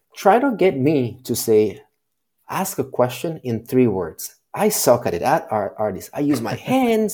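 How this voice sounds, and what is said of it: Speaks with a foreign accent. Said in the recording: “with the accent”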